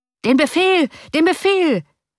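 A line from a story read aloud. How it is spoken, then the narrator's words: Thousands of voices screaming. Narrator (German): schrien mehrere tausend Stimmen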